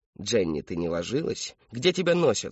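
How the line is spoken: Plain. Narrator (Russian): спросил он

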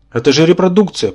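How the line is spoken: Timid babble. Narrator (Russian): пролепетал Юра

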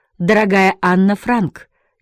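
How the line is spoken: Hoarse smoky voice. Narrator (Russian): переводил хриплым, прокуренным голосом с нидерландского

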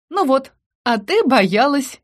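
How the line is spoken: Giggling. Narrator (Russian): хихикала она

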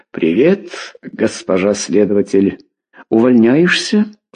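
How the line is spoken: Plain. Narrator (Russian): спросила Клавдия

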